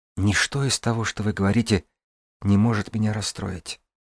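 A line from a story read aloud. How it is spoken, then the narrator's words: Whisper. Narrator (Russian): прошептала я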